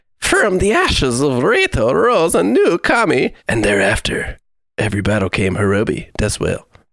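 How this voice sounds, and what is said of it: Reads aloud in put-on accent. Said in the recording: “You gotta get an accent. ... a voice going on here.”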